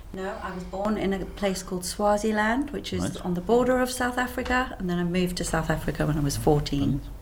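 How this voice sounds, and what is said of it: South African accent. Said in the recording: “where your accent comes from... My accent comes from South Africa.”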